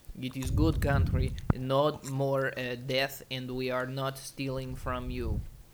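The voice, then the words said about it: Put-on Russian accent. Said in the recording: “that's like what Russia does when they're like ... you should stop me from doing this accent”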